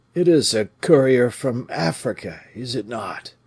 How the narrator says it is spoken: Athos cried in a weak voice

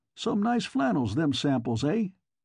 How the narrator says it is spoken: With unnecessary jauntiness he chuckled

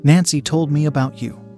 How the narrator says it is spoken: she said

